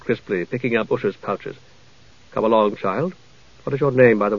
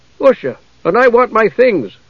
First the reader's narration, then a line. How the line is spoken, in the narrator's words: she said loudly, far more loudly than she'd intended